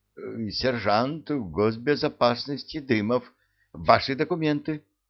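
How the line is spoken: Hesitant stammering. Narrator (Russian): сомневаясь, запинаясь, произнес

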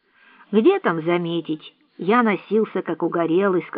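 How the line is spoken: Plain. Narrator (Russian): сказал Энди

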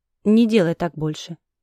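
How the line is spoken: Hoarse dragon voice. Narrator (Russian): Кадык дракона дернулся, и он хрипло произнес

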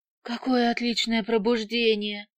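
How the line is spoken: Strained anguished voice. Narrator (Russian): надрывным голосом говорит она

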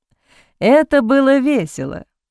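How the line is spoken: Laughed. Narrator (Russian): рассмеялся Сент-Мор

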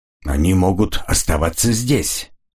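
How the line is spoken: Cold objection. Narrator (Russian): холодно возразил Эмис

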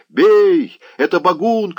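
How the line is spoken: Shouted. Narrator (Russian): крикнул Заглоба

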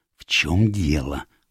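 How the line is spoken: Whisper. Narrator (Russian): прошептал

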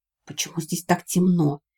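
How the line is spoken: Stunned whisper. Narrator (Russian): прошептал Вик, потрясенный

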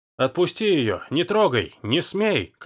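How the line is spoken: Desperate shouting. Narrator (Russian): кричал Даг

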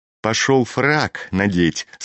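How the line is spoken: Plain. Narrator (Russian): сказал мальчик

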